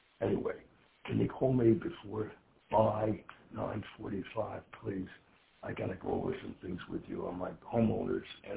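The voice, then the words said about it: Quiet, hushed speaking. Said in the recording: “I'm calling you quietly because everybody else is sleeping”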